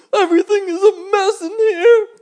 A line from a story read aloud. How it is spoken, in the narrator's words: cried the worm